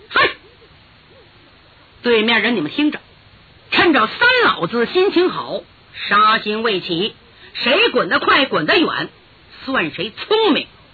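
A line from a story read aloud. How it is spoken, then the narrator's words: Booming stern shout. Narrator (Chinese): 他一提丹田气，厉声喝道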